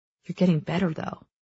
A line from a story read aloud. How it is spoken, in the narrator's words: Cal murmurs